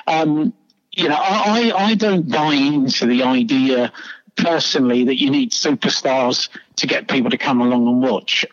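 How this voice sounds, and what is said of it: London English accent. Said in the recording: “as you can tell by my accent, I'm from London. Well, you can tell I'm English.”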